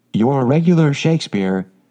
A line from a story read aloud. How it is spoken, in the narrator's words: exclaimed Beth